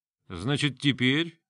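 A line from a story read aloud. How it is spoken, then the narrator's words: Mocking question. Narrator (Russian): насмешливо вопросил Грон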